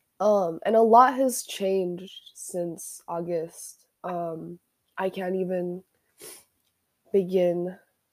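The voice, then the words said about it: Sick, congested-sounding voice. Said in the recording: “I'm currently sick ... my voice sounds kind of weird ... Stupid cold”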